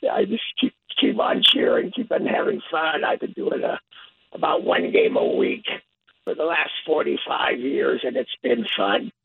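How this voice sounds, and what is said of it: Raspy, worn voice. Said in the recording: “Your voice, you sound the same as you did in 1979. ... it's always raspy after 45 years at cheerleading for a living. ... It's been raspy ever since.”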